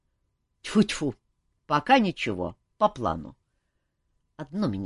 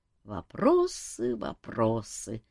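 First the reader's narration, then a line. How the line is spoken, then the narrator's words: Gloomy sigh. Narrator (Russian): сумрачно вздохнул Пол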